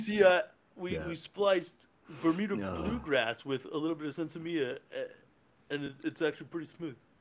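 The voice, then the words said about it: Imitates another person's voice, poorly. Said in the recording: “My quote was maybe like 40%, and my impression was terrible ... Bill Murray just sounds like a normal dude”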